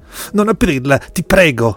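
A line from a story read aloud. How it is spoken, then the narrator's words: Shrieking. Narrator (Italian): strillò Irina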